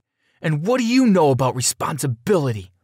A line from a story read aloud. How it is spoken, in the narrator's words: I screamed back, almost crying